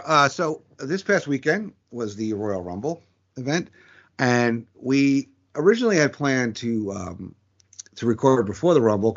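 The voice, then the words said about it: Strained, failing voice. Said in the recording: “Sorry, I apologize for my voice. ... Voice going a little bit towards the end here.”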